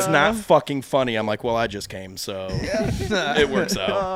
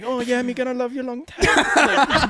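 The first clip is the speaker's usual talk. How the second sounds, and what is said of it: Put-on Filipino accent. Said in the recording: “My girl's from the Philippines ... she doesn't have the accent, but I like to pretend that she has the accent. So I'll do the accent”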